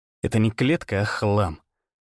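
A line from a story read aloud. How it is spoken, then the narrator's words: Grumbling mutter. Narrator (Russian): буркнул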